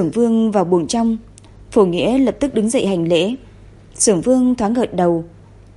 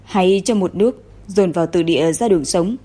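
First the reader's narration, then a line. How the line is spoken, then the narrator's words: Sighing. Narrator (Vietnamese): Phổ Nghĩa thở dài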